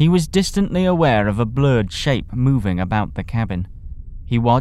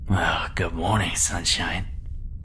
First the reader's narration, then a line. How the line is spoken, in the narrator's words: Without moving a muscle, except for the mouth, jaw, and tongue ones he needed to speak, muttered